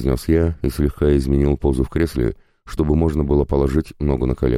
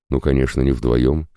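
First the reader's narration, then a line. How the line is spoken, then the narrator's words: Snorting. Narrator (Russian): хмыкнул я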